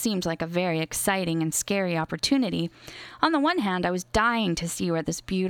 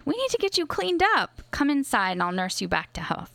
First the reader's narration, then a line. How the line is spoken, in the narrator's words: exclaimed when she saw the blood